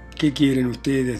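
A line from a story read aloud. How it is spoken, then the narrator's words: Plain. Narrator (Spanish): dijo Lujine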